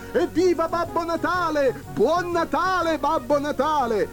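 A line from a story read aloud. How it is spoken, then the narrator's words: Crowd shouting. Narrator (Italian): si udì un gran scoppio di voci che gridavano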